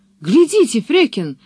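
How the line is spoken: Exclaiming. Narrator (Russian): воскликнул он

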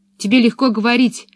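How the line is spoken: Angry objection. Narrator (Russian): сердито возразила Пеппи

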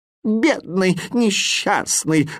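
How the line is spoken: Moan. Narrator (Russian): застонал восклицательный

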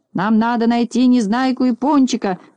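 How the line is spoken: Shouted reply. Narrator (Russian): закричал в ответ Знайка

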